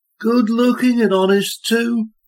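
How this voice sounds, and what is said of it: Flat, matter-of-fact Midlands accent. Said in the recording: “in a flat, matter-of-fact Midlands accent”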